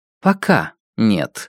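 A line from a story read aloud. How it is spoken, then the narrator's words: Dry reply. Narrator (Russian): сухо ответила Зида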